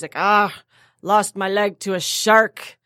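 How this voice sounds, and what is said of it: Pirate voice with Scottish accent. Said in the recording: “my pirate sounds Scottish ... I know Scottish. I was like, "Ah, that sounds like a pirate."”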